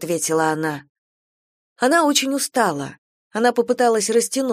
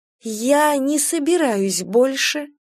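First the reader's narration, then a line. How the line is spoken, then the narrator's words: Slow. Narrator (Russian): медленно проговорила она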